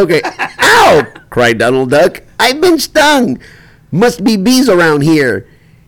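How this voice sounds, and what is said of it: Usual voice. Nothing is said of it.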